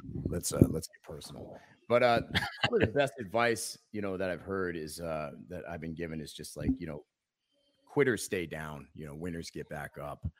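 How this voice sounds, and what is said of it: Low voice, affected by allergies. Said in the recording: “I wasn't trying to lower my voice. Allergies.”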